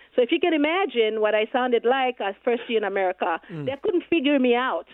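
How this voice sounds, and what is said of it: Foreign-accented English. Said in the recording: “I still have my accent, and I'll always have it”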